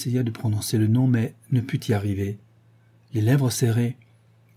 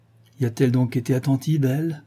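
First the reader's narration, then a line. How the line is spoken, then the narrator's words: Forced sneering question. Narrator (French): demanda Heathcliff en s'efforçant de ricaner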